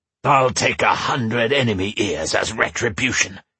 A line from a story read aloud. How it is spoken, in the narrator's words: snarled